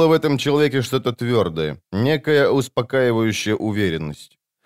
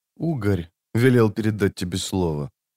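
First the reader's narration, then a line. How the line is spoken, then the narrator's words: Quiet. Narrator (Russian): тихо произнес тот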